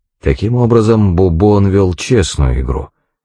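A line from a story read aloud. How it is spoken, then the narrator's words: Plain. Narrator (Russian): сказал я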